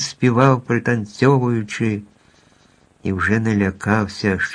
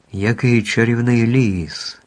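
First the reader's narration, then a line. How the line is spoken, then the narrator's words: Delighted exclamation. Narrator (Ukrainian): захоплено вигукнув Лев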